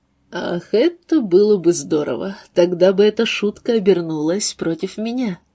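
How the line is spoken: Louder laughter. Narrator (Russian): Кассандра рассмеялась еще громче

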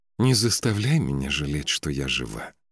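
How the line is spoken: Girl's breathy exhale. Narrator (Russian): выдохнула девушка

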